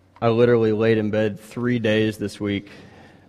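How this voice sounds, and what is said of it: Sick, strained voice. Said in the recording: “If I sound sick, it's because I am. ... apologize for my voice.”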